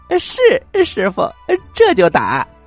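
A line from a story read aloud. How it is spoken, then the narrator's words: Laughing. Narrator (Chinese): 悟空笑着说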